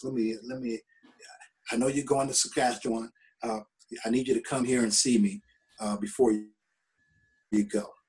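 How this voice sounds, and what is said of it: Soft quoted voice. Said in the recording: “in his soft voice”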